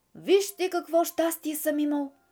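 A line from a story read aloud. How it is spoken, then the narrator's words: Sudden shout. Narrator (Bulgarian): извика неочаквано някакъв глас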